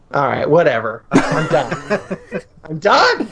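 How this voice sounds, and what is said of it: Deadpan flat delivery. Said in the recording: “deadpan”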